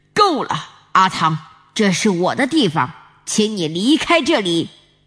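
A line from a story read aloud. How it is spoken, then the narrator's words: Angry roar. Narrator (Chinese): 罗里 他发怒地吼着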